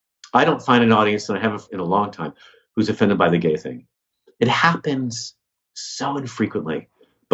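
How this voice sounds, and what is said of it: American accent. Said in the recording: “my accent ... explain why I'm American ... what really gets people going is my accent”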